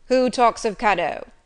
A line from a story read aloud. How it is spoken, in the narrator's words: said he gruffly